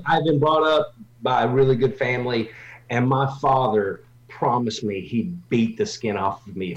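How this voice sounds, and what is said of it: Southern North Carolina twang. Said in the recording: “have a little twang ... I speak like a broken wheelbarrow ... I am from North Carolina originally”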